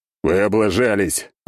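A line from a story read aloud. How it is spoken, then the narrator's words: Growl. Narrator (Russian): рыкнул я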